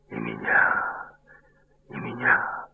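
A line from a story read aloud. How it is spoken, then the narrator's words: Seeming whisper. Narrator (Russian): губы словно шептали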